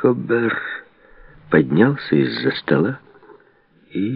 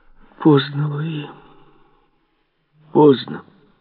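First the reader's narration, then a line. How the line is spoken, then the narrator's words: Heavy sigh. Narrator (Russian): Тяжело вздохнул Марк Обер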